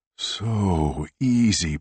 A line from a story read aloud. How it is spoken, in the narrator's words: Puppet Man moaned